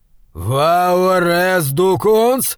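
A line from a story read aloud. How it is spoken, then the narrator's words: Growl close to ear. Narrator (Russian): прорычал голос у него над ухом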